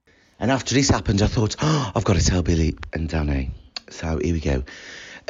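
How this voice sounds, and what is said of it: Birmingham accent. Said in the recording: “Fucking love the Birmingham accent.”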